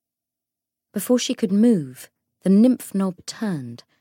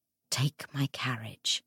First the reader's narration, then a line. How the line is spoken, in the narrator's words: Anna whispered